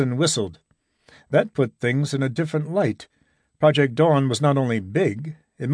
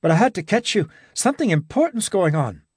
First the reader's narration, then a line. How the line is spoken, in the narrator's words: he said breathlessly